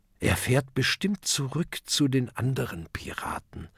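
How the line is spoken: Murmured. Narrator (German): murmelt Oskar

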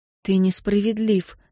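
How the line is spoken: Even voice, suppressed hurt. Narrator (Russian): сказала София ровным голосом, хотя внутри все клокотало от обиды

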